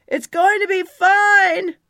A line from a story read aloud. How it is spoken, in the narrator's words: shouted up